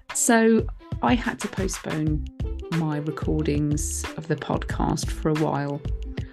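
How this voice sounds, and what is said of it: Slightly croaky, hoarse voice. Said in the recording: “lost my voice. You can probably hear it's a little bit croaky still”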